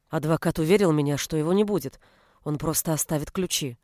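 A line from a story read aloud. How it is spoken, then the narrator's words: Muttered. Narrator (Russian): пробормотала Анжела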